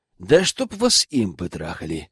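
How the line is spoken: Sigh around a cigarette. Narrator (Russian): вздохнул с сигаретой в зубах

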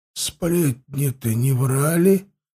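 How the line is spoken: Uneasy mutter. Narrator (Russian): пробормотал Хаста, чувствуя, как мурашки бегают по коже

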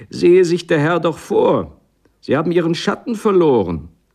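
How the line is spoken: Old woman calling after. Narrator (German): Ein altes Weib rief mir nach

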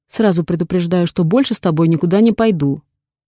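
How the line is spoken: Stern. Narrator (Russian): проговариваю строгим голосом

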